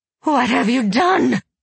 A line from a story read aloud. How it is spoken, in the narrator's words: Elisaveta screamed